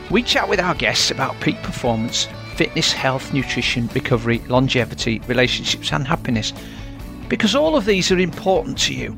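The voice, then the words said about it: Yorkshire English accent. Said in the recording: “you'll always hear a Yorkshire accent”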